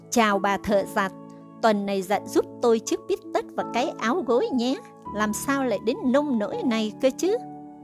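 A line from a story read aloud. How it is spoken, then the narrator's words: Shrill snickering. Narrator (Vietnamese): Rồi nó cười rin rít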